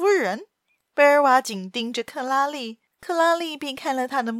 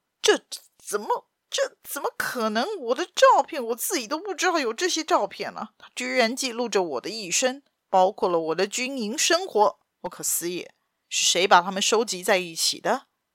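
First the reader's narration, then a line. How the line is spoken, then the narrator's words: Stunned murmur. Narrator (Chinese): 贝尔瓦喃喃地说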